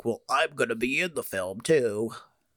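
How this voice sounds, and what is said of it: Imitates another person's voice. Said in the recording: “That's my Ryan Reynolds impression... it sounded just like him.”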